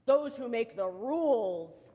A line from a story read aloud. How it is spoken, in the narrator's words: growled Pushkin